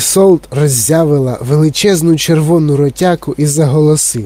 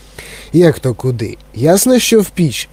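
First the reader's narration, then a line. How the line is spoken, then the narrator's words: Calm explanation. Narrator (Ukrainian): спокійно пояснив містер Вонка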